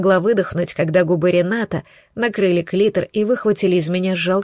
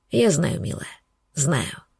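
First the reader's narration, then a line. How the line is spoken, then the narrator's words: Whisper. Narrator (Russian): шептал Ренат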